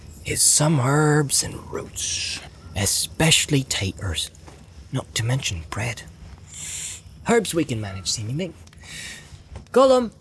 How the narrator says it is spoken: he called softly

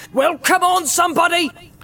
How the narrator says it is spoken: he cried

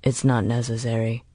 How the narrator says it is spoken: Holston said quietly

